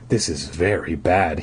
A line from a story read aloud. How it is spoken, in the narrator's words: he murmured, talking to himself